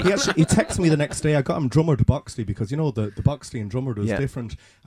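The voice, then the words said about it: Irish accent with Leeds tinge. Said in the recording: “your accent ... is swinging back towards Leeds ... my mammy's a Leeds accent, so we've got a Leeds drumlish accent ... Sometimes though, it's less Leeds”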